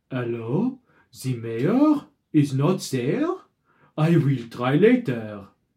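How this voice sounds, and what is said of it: Put-on French accent. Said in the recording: “someone with a weird foreign accent ... That's just French.”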